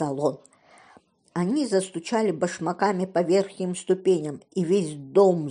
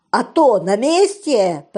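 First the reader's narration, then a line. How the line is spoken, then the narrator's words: Roaring. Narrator (Russian): проревел Пью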